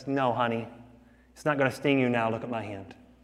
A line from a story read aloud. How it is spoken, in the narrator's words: The father gently says